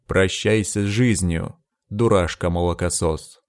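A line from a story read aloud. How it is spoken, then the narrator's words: Growling. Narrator (Russian): зарычал маг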